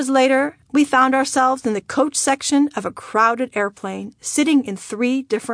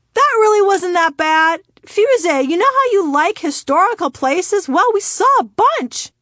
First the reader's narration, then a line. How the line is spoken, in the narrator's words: my father turned around and shouted from 4 rows ahead of me